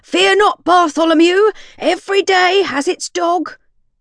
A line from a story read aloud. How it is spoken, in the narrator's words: the gargoyle shouted, his voice ringing through the streets